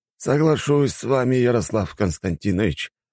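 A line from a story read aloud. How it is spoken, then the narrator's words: Sighing. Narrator (Russian): вздохнул Старковский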